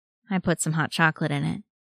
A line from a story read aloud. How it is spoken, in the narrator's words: says, mumbling it out